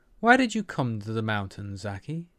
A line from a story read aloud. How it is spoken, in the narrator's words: she asked, her voice impossibly innocent and curious